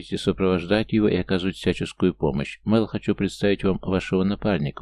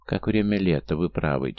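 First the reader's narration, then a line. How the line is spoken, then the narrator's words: Quiet pleasant voice. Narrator (Russian): тихим приятным голосом отозвался Лето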